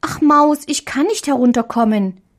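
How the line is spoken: Little girl calling. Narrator (German): rief die kleine Marie

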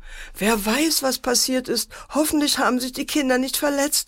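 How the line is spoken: Wailing mother. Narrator (German): jammerte die Mutter

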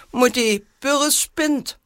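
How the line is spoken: Calling out. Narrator (German): rief

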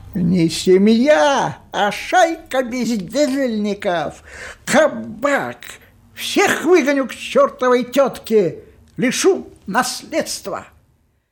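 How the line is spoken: Hoarse shouting. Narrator (Russian): его сиплые крики

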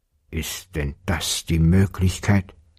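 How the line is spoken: Gruff mumble. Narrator (German): Da brummte der Vater in seinen Bart

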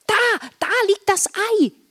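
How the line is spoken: Excited shout. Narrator (German): rief Marla aufgeregt

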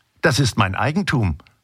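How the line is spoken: Plain. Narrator (German): sagte sie

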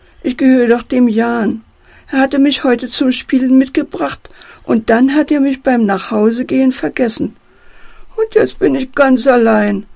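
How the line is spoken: Teddy bear whining. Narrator (German): jammert der Teddy

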